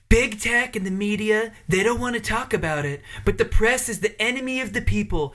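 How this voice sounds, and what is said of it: Imitates another person's voice. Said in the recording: “Trump impersonations”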